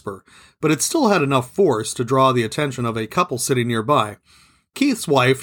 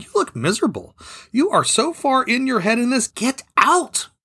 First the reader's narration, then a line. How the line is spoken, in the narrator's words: It wasn't a shout